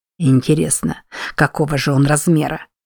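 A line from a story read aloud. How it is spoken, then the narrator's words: Muttering. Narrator (Russian): пробормотал Уильям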